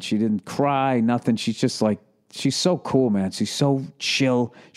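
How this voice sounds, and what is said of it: Boston accent. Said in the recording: “some of my dearest best friends are from Boston, and I have an affinity for that accent as well”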